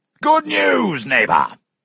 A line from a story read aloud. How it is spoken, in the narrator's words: shouted